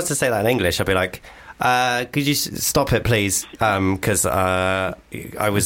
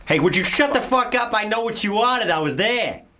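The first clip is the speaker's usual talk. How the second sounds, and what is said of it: Put-on Boston American accent. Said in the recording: “American accent ... Do your Boston. Your Boston was good.”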